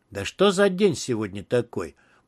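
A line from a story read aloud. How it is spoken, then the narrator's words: Angry mutter. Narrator (Russian): пробормотал Квинси, со злостью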